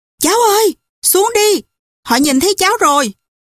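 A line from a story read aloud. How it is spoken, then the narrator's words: Calling out. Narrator (Vietnamese): Viên sĩ quan kêu lên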